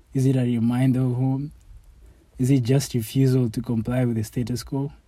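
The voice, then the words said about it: Nairobi accent. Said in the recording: “stay true to my accent ... when I talk in my accent ... my accent is unique ... the same Nairobi kid”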